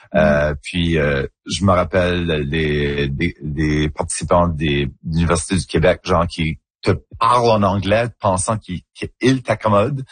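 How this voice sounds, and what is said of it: Acadian French accent, rounded. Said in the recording (French): “mon accent en acadien... un accent un petit peu plus coloré, un petit peu plus arrondi”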